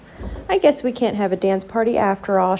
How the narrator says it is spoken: sighed

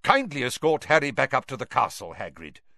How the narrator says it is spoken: said Dumbledore sharply

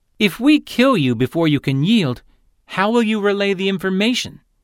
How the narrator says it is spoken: he asked

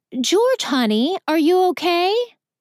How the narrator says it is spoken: Scarlet shouts

